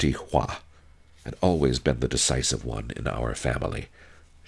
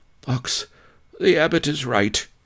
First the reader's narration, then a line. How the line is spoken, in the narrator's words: said hoarsely